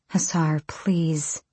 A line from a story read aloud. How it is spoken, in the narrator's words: Irene murmured